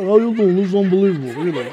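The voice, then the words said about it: Imitated New York accent. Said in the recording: “he's a real New Yorker”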